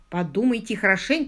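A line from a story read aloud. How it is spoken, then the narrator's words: Plain. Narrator (Russian): сказал Ронни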